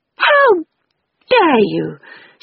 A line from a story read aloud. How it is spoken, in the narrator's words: she cried furiously